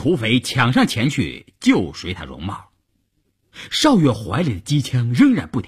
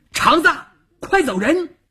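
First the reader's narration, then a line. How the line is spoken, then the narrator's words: Shout. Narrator (Chinese): 邵月这么一喊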